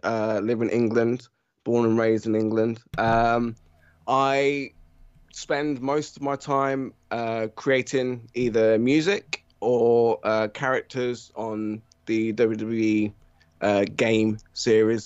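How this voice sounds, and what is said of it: British accent. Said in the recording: “as you can probably tell from my accent, I'm British.”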